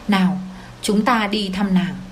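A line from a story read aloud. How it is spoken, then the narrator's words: Gentle speech. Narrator (Vietnamese): tôi nhẹ nhàng nói với cậu ta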